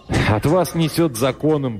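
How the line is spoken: Tossed off, laughing. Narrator (Russian): бросил он и засмеялся

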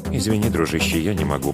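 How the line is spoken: Muttered. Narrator (Russian): пробормотал Хао Жень

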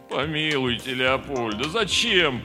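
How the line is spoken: Groaned. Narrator (Russian): простонал Слава

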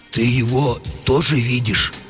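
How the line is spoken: Confused whisper. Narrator (Russian): растерянно спросил комендант у сторожа все еще шепотом

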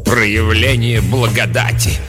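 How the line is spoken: Contemptuous snort. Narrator (Russian): презрительно фыркнула мать-настоятельница

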